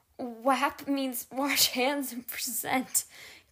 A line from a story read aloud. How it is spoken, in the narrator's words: Keith managed to explain between laughs